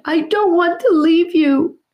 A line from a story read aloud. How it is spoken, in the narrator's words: Charlie sobbed